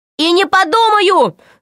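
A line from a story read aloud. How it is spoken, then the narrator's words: Shouting. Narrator (Russian): закричал Пашка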